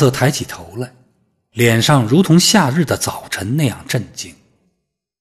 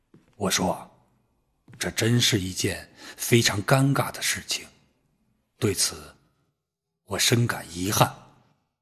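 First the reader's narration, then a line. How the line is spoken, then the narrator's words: Slightly hoarse voice. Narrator (Chinese): 扯着略显沙哑的声音说道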